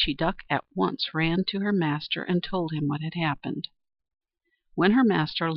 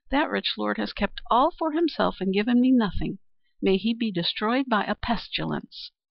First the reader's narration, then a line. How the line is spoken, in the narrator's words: she exclaimed